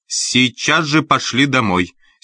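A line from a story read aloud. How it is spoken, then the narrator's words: Angry shout. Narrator (Russian): Сердито прикрикнула Эллен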